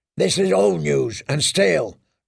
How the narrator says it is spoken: growled the shavepate

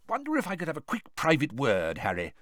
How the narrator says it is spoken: said Bagman eagerly

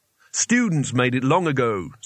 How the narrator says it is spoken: said Rincewind

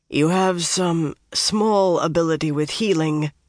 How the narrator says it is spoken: the Chosen told Chesmal thickly

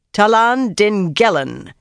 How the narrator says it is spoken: she barked suddenly

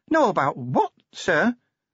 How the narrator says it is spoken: said Cheery nervously

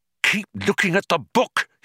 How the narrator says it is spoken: hissed urgently

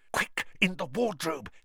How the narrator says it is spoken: hissed Harry

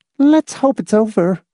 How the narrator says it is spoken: Miss Rice said uneasily

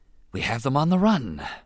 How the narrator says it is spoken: Rune Hakko breathed, scarcely able to believe their good fortune

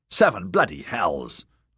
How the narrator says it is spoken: Darian snapped

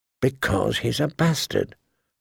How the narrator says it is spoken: Bran finally had to whisper to him

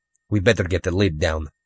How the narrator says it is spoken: Rudy said nervously

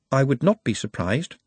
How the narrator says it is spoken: said Nut calmly

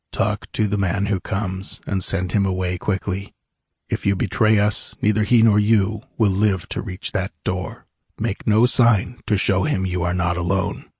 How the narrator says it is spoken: the tallest man disappeared, he murmured

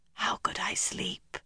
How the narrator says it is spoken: Elaine's reply, a reedy whisper through the hole

